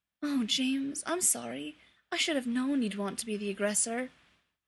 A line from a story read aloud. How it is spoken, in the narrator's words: Remus murmured